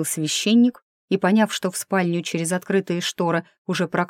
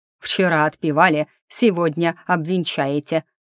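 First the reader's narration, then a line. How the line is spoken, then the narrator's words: Guardian barking. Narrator (Russian): рявкнул опекун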